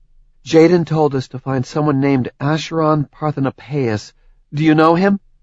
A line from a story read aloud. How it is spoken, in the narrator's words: Phobos choked